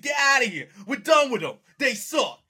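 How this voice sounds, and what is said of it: Poor put-on New York accent. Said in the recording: “That was the worst Boston accent I've ever seen. ... that was New York.”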